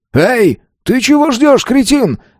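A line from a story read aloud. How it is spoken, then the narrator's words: Man yelling. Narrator (Russian): Заорал мужик на седьмой платформе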